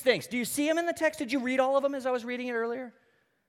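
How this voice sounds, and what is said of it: Sarcastic delivery. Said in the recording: “Of course I'm being sarcastic.”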